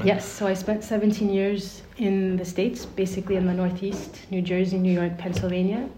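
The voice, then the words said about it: American English accent. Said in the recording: “your incredible American accent”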